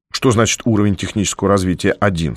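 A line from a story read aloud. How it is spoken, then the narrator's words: Plain. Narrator (Russian): спросил я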